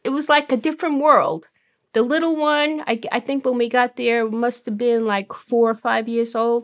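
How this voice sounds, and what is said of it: Brooklyn accent. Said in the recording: “is originally from Brooklyn. Maybe you can tell by her accent.”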